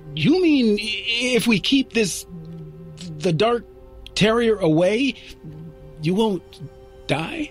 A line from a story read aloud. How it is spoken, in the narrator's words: He said hesitantly